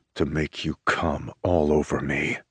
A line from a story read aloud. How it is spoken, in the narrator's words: growls